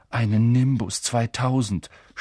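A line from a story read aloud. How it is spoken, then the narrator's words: Envious groan. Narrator (German): stöhnte Ron neidisch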